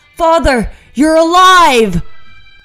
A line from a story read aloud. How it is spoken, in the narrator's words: Oliver shouts